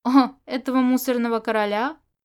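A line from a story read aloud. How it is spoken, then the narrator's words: Snorting. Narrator (Russian): Он хмыкнул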